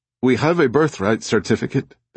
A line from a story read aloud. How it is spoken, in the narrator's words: said nervously